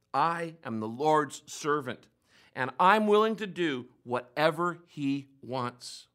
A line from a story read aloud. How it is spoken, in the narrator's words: she calmly responded